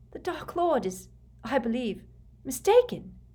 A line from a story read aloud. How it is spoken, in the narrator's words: Bella panted